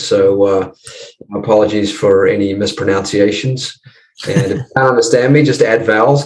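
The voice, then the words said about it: New Zealand accent. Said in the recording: “You got a bit of an accent, which is not an American accent ... I'm just across the ditch there, mate, in New Zealand ... the Kiwis love to butcher the English language”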